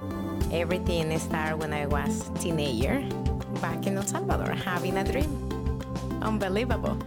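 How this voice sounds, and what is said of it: Foreign accent in English. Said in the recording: “proud of my accent because without my client can know that I'm not from here”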